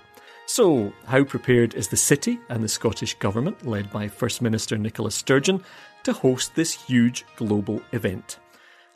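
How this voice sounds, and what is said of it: Scottish accent. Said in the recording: “the whole guy with a Scottish accent”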